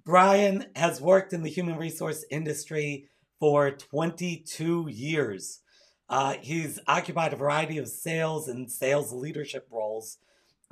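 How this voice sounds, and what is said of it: Strained voice cutting in and out. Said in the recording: “my voice is sort of in and out today”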